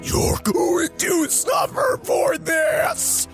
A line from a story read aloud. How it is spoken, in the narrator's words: shouted Slender Man and Brito from across the room